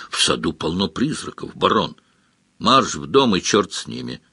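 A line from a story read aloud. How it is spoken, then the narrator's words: Barked. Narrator (Russian): рявкнул Сварог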